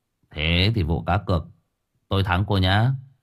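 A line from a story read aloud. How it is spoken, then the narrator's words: Quiet. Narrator (Vietnamese): Cậu Cần nhỏ giọng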